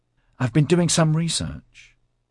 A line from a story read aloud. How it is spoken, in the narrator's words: said eagerly